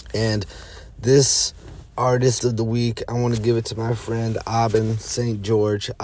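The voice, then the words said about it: Hoarse, strained voice. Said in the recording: “I'm losing my voice, my goodness”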